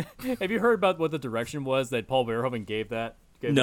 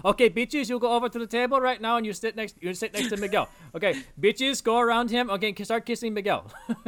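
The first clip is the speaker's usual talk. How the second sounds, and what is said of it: Poor attempt at Dutch accent. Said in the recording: “I have no idea what accent that was supposed to be. I don't think it's Dutch though... It's supposed to be Dutch. I can't do a Dutch accent.”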